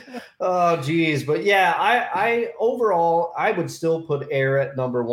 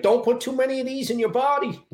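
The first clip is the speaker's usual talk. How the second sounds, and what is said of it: Imitates another person's accent. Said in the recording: “you gotta do the accent too.”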